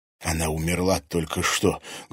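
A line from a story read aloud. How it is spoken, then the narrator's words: Loud hiss. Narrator (Russian): громко прошипел Илья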